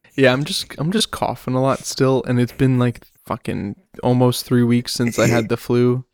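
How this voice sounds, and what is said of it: Rough, sick-sounding voice. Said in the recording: “if my voice sounds fucked up, it's because it is.”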